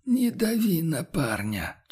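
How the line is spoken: Barely audible, strained. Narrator (Russian): чуть слышно с натугой выдавил наставник

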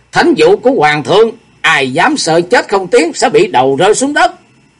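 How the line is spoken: Stern loud proclamation. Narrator (Vietnamese): Sung đại sư nghiêm nghị kêu to

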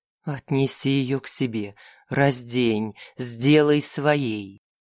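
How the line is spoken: Insinuating inner whisper. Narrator (Russian): Часть его существа вкрадчиво нашептывала

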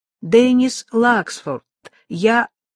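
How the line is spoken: Loud. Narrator (Russian): Лаксфорд громко произнес

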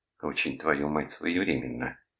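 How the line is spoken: Muttering under breath. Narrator (Russian): пробормотала себе под нос Деб

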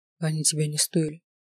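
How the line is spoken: Suddenly quiet. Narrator (Russian): неожиданно тихо сказал Рыч

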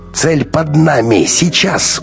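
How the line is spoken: Hurried shout. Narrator (Russian): успел выкрикнуть Максим

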